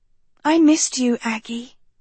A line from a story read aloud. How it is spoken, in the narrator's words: Sophie whispered